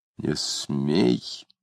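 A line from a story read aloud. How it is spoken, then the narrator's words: Louder through clenched teeth. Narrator (Russian): повторив громче сквозь зубы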